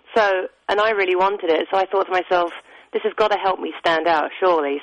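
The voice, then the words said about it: English accent. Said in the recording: “You have a lovely accent ... I was the only English person auditioning for the part”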